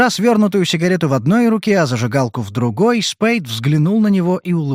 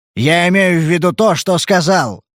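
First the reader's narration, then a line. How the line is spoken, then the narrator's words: Sharp. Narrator (Russian): резко ответил Дэнди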